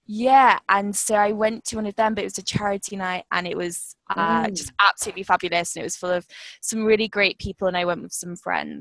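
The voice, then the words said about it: British accent. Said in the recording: “It's my British accent. It's horrible.”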